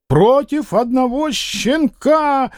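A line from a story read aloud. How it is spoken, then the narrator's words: Shrieking. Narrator (Russian): визжал Зубов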